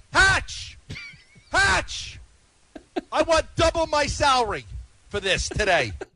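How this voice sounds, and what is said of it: Yelling a demand. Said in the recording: “He's yelling it for his boss... he's just sitting there going, Hatch! He's demanding.”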